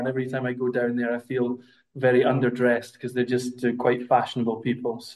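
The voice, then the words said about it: Scottish accent. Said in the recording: “My Scottish accent is obviously showing that I'm not Italian”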